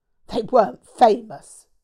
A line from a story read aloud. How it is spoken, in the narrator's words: she snapped